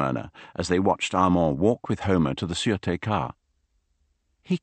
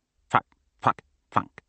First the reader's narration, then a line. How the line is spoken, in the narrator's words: muttered the duck